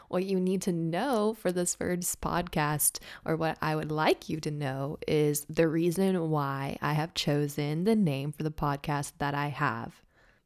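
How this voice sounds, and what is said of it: Partially raspy voice. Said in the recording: “I apologize for my partially raspy voice. I have not spoken a lot today, so I think I'm just getting a little warmed up.”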